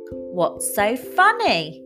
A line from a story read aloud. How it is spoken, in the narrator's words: shouted Felicity, confused